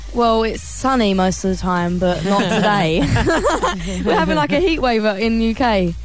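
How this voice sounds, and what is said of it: British English accent. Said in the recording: “We can tell by your accent. ... You grew up in the UK in Oxford.”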